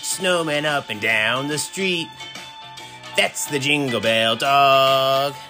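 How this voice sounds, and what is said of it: Singing in an elf voice. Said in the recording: “that was my attempt at an elf voice, not a frog”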